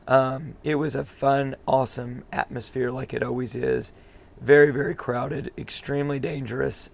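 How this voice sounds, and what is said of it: Hoarse, strained voice. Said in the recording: “That's why my voice is the way it is. ... Because we yelled a lot today. ... We yelled a lot before we even went into the stadium.”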